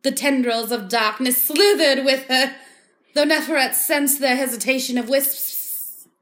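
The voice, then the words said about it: Put-on accent, Australian drifting to Southern. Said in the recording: “I don't know what kind of accent that was ... you started with Australian, and then you went into Southern”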